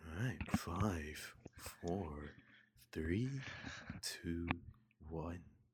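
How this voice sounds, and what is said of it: Soft ASMR-style voice. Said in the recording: “ASMR voice”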